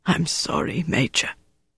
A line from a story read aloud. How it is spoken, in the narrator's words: The man whispered